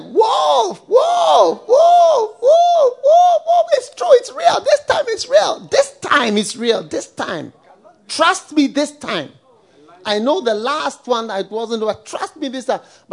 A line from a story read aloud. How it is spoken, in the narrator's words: he shouted